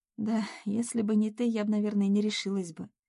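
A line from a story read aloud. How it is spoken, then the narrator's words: Reply with slight sigh. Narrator (Russian): ответила Надя, слегка вздохнув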